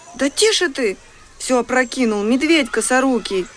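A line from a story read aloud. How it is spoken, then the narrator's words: Exclaimed. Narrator (Russian): воскликнула Маша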